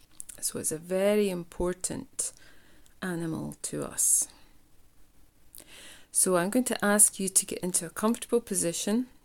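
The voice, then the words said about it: Scottish accent. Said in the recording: “you might hear from my accent, I come from a place in the world called Scotland”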